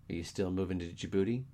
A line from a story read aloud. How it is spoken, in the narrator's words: Casey asked